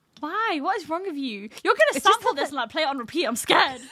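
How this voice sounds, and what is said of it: Northern English accent. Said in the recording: “Your northern accent and you're just know. Passion and anger.”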